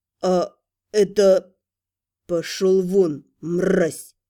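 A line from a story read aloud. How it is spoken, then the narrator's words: Growled. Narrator (Russian): Последнее слово дядя Миша даже не произнес, а прорычал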